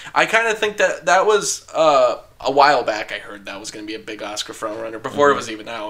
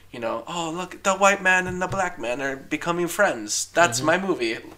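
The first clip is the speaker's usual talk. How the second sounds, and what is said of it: Unidentified put-on accent. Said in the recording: “I don't know why I gave it that accent. I don't even know what that is.”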